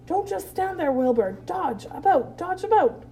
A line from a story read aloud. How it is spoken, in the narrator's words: cried the goose